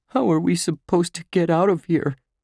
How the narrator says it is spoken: Josh asked in a shaky voice

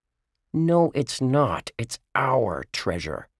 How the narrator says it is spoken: Josh growled at his little brothers

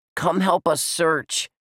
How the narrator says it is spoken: Dink yelled up at Josh

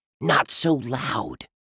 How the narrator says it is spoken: Dink whispered

